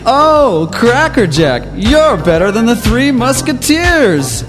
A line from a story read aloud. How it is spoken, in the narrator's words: She screamed